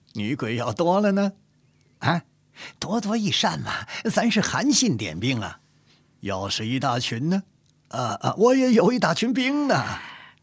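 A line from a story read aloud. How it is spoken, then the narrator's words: Amused chuckling question. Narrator (Chinese): 傅恒 扑哧一笑，问道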